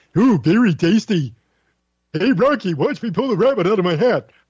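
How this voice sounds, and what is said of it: Impersonation of a cartoon moose voice. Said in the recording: “Little Rocket J. Squirrel and Bullwinkle Moose ... a little impersonation”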